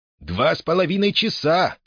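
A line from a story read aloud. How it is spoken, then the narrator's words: Shout. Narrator (Russian): крикнул проводник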